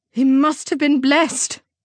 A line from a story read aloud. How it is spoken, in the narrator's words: Darlene exclaimed